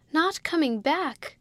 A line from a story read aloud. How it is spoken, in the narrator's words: cried out Georgie